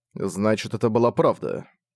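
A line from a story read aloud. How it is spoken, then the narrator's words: Muttered. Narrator (Russian): он пробормотал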